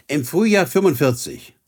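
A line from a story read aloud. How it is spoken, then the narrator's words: Plain. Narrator (German): sagte Ellen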